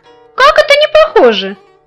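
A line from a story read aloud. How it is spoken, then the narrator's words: Exclamation. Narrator (Russian): воскликнул немытик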